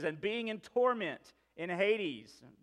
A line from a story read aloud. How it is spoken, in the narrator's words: says